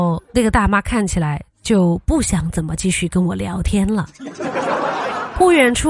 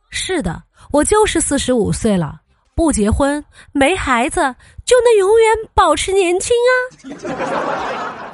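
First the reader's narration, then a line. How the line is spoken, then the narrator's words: Mysterious smiling. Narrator (Chinese): 我保持神秘的微笑说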